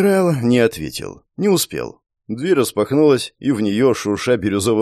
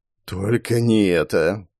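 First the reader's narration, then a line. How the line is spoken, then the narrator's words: Muffled despairing grumble. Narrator (Russian): пробурчал начальник базы, уронив лицо в ладони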